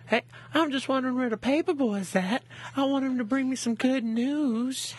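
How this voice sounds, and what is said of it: Imitates a cartoon character's voice. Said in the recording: “do that voice”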